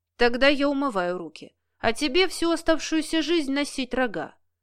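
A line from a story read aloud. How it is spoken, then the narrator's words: Calm reply. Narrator (Russian): Спокойно отозвался Денис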